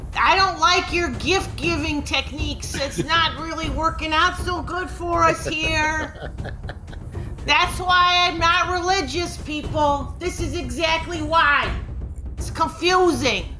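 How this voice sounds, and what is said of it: Yelling. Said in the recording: “as you're yelling that out”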